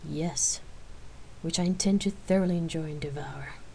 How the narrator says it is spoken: Rain answered softly, with a sexy smile

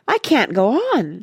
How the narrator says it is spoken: she kept wailing, just like a real actress

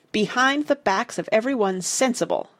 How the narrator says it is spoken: I snapped

